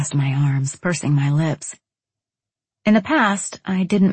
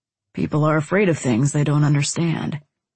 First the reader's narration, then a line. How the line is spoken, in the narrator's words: he said in a calm voice